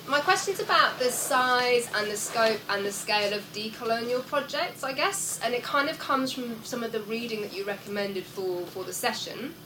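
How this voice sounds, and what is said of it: Congested voice with a cold. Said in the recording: “I've got a cold”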